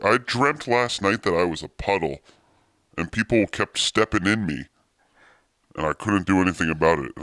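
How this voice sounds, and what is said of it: Very deep, low-pitched voice. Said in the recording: “I cannot believe how deep your voice is. ... voice is super low.”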